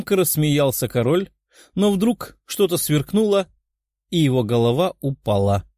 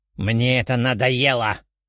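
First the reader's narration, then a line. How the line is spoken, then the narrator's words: Furious growl. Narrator (Russian): прорычал взбешенный Золотоволосый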